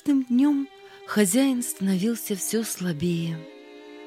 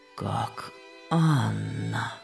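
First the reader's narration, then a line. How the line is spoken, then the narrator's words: Sick man whispering. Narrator (Russian): прошептал больной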